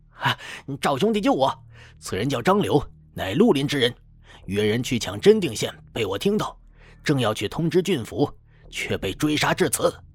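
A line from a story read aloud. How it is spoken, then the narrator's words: Urgent shout. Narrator (Chinese): 急忙高呼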